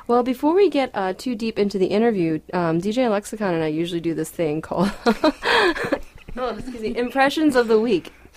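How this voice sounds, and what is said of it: Hoarse voice. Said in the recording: “I sound a little bit different today. I have a little horse”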